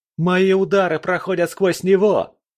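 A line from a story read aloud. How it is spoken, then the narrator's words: Shout. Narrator (Russian): крикнул кто-то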